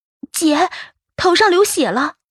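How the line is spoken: Alarmed shout. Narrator (Chinese): 小珍 大惊，喊了声

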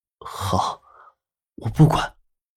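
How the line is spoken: Low voice. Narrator (Chinese): 南离川 低声的说道

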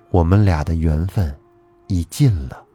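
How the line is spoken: Sighing, low voice. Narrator (Chinese): 龙女叹了口气，低声地说

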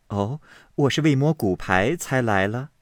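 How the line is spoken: Laughing. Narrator (Chinese): 宝钗听说，便笑道

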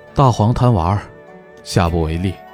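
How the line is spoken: Flat, indifferent. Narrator (Chinese): 高长恭淡淡的说道

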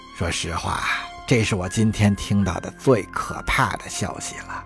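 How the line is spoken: Murmuring. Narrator (Chinese): 总统喃喃说道

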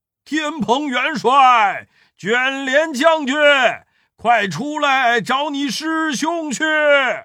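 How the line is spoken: Panicked loud shout. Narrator (Chinese): 慌的那四海龙王高声大叫

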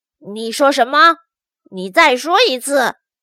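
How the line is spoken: Low growl. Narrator (Chinese): 乖乖熊低声吼道

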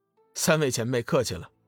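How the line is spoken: Slight smile. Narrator (Chinese): 龙宇微微一笑

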